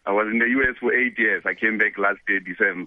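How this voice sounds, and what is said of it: South African accented English. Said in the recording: “I was there to represent South Africa and I maintained my accent”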